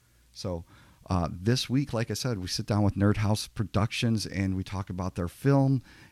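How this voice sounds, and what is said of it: Slightly hoarse voice. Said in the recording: “If I sound a little funny, my voice is a little bit hoarse ... you hear a little something different going on”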